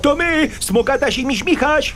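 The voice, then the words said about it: Shouting. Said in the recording (Polish): “Nie musisz krzyczeć. ... Nie krzycz”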